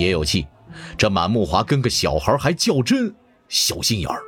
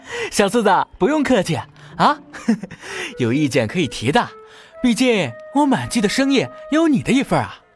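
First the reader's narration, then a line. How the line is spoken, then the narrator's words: Grinning, cheerful. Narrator (Chinese): 满木华笑嘻嘻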